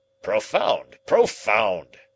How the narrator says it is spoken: cried Challenger

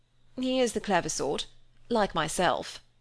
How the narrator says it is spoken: said Cecil

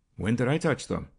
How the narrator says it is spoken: asked Jasper quickly

